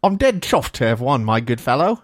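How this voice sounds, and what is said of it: Put-on British accent. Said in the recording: “I suppose I should read that in a British accent. ... I feel like I'm getting better at the British accent”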